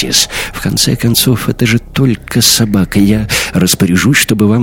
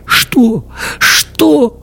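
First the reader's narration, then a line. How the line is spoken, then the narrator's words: Sobbing. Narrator (Russian): рыдая, проговорил Йонс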